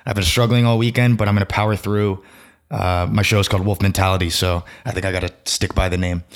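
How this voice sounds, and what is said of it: Strained, unwell-sounding voice. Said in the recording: “my voice is really not doing so hot”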